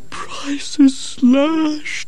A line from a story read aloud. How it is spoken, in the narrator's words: moaned Gerda